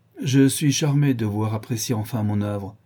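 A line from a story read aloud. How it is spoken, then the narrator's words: Cold, regaining calm. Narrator (French): dit froidement, en reprenant son calme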